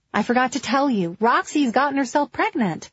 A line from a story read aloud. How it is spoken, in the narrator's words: yelled